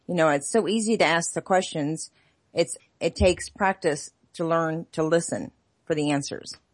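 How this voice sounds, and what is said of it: Slight Southern Texas twang. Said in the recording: “you have a little Southern twang to you. Do you have Texas?”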